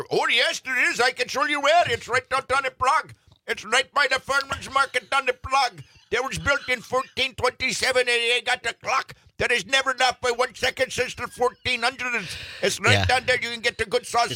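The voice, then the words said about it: Put-on Czech accent. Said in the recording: “good Czech dialect”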